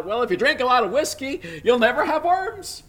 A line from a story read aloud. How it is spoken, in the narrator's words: one man, who obviously was a little bit inebriated, called out